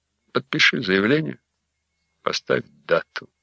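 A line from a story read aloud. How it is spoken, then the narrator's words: Even, level voice. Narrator (Russian): сказал ровным голосом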